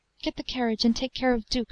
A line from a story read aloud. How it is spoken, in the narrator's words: she said, and her voice trembled like that of one shivering with cold